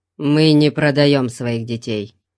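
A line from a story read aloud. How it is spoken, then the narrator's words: Gruff grumble. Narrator (Russian): проворчал он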